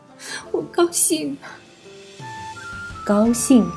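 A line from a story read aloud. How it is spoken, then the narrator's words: Crying. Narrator (Chinese): 九姨一边哭一边道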